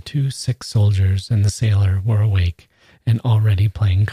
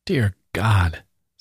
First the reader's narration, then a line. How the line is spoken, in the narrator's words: said Pavel Ivanich, and he shook his head mournfully